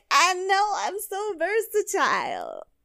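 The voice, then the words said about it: Stoned-sounding imitation of another person. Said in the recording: “my impression of Jade is just her stoned”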